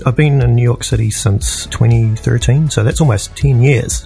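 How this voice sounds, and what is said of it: New Zealand accent. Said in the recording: “you don't sound like your typical New Yorker ... born and raised in New Zealand”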